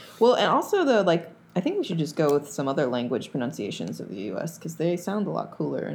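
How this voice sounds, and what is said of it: Usual voice. Nothing is said of it.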